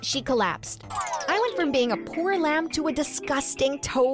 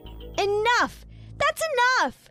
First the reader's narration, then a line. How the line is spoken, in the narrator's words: shouted